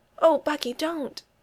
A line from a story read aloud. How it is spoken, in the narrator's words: Steph always gasps